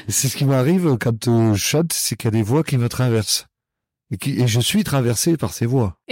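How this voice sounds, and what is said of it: Regional French accent. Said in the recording (French): “mon accent, que j'ai toujours pas perdu ... ça fait partie de ma personnalité et de ma géographie natale”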